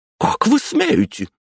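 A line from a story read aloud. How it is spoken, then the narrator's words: Shouted. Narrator (Russian): закричала Светлана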